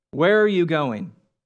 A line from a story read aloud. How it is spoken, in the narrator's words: the cat asked